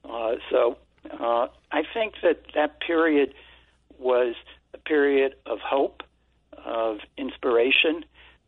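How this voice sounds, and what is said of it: Brooklyn accent. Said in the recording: “they figured out I was from Brooklyn with our accent”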